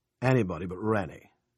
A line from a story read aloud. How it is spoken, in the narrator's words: Ernie growled